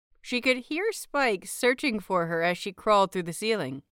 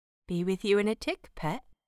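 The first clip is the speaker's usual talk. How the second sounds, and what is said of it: Murmured, bad put-on British accent. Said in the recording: “she murmured in a bad British accent, grinning”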